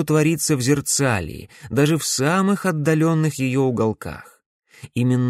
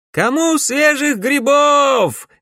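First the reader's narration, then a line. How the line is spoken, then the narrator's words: Shouting market woman. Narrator (Russian): кричала торговка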